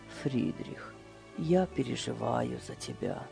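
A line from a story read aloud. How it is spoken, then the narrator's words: Quiet. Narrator (Russian): тихо сказал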